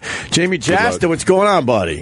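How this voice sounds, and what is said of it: Faked deeper radio voice. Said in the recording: “you got the radio voice, and now I'm going to fake that I got one today ... I'm going to make mine a little deeper to try to stick with you”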